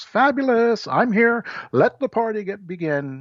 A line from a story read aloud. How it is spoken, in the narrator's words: One is a grandiose, over-the-top kind where a person just shouts